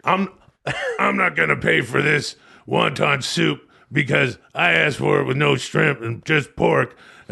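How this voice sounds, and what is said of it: Imitates another person's voice. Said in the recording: “That's your fucking Hulk Hogan. And it's not good, dude ... That's not a good impersonation ... like a drunk businessman in the back of a Chinese restaurant complaining about the bill”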